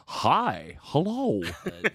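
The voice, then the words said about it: Deliberately bad imitation of a character. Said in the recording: “my very bad Kevin impression”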